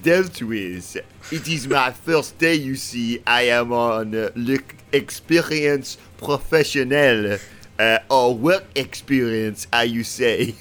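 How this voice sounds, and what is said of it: Put-on French accent. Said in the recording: “a second ago, you were an Australian, or you had some kind of accent from down under, and now you're a Frenchman ... You've decided to change your accent”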